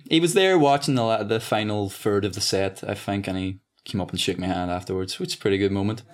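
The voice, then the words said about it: Irish accent, rising sentence endings. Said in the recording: “doing my accent's even tougher. No one can do it. ... when I hear Irish, it's about the, there's a tempo to it where the ends of the sentences sort of raise.”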